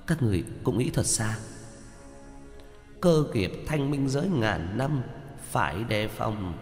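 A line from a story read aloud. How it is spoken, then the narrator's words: Startled muttering. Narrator (Vietnamese): Giao Quang Tiên Tử giật mình lẩm bẩm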